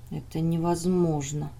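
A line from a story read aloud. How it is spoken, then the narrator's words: Quiet speech. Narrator (Russian): тихо сказал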